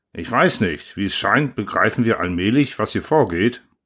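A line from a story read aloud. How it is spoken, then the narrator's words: Plain. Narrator (German): sagte Lauder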